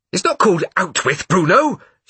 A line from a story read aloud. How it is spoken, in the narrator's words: she said angrily, as if this was the worst mistake anyone had ever made in the history of the world